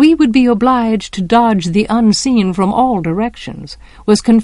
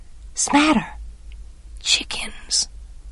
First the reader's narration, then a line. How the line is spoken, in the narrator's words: he breathed